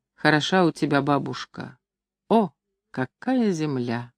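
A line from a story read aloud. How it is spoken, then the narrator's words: Quiet, clear, smiling recitation. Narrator (Russian): улыбаясь, прочитал негромко, очень внятно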